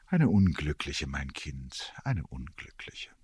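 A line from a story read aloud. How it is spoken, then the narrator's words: Odd sighing answer. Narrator (German): antwortete das Fräulein Brahe mit einem Seufzer, der mir komisch vorkam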